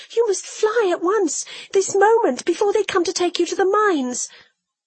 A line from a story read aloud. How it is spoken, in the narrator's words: said I, sobbing